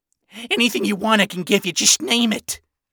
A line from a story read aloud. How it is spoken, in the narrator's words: Ronnie pleaded